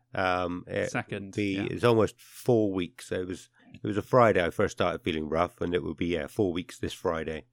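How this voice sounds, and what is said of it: Rough, unwell-sounding voice. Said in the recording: “You might be able to hear it again already, but my voice is... fucked. I'm still ill.”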